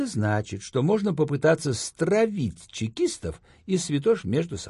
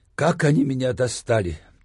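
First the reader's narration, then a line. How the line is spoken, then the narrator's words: Heavy sigh. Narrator (Russian): тяжело вздохнул я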